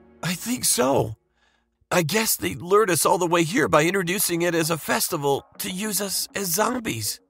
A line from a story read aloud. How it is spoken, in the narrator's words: Justin replied in a trembling voice